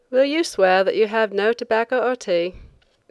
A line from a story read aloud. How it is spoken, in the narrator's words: the inspector asked lazily